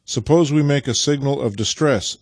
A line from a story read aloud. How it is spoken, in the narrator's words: said Nikita presently